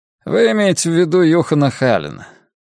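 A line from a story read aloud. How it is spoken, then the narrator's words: Sighing man. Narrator (Russian): мужчина вздохнул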